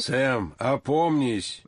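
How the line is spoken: Thunderous roar. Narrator (Russian): громовым голосом взревел Георгий Александрович

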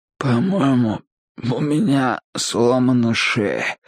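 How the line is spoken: Hoarse croak. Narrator (Russian): прохрипел я

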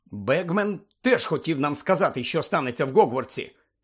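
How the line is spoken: Angry male grumble. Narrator (Ukrainian): сердито буркнув він

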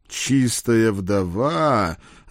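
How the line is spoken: Snorting. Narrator (Russian): хмыкнул шеф

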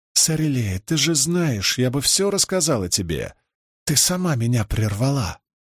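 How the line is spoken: Barely audible. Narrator (Russian): чуть слышно

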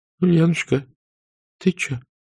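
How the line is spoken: Quiet trembling question. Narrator (Russian): тихо дрожащим голосом спросила жена

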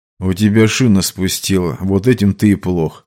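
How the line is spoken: Calm. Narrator (Russian): спокойно ответил Тэп

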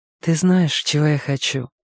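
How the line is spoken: Tender. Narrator (Russian): ласково сказала Диса

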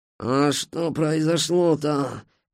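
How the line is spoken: Groaning. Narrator (Russian): простонал скрипач

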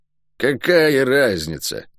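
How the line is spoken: Muttered. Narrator (Russian): буркнула она

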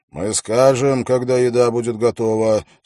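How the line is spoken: Angry. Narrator (Russian): сказал он сердито

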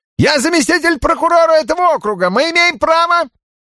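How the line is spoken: Shrill. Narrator (Russian): Визгливо начал он

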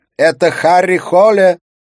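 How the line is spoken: Shouting woman. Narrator (Russian): прокричала Катрина

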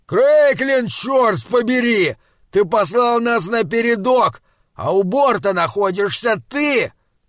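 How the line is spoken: Shouting into helmet microphone. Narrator (Russian): прокричал Лам в микрофон своего шлема

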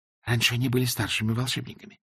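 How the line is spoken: Whispered reply. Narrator (Russian): шепнула в ответ Эск

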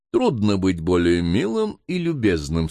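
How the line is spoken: Plain. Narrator (Russian): сказал консул

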